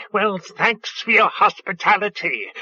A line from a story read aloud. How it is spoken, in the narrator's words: the bird spluttered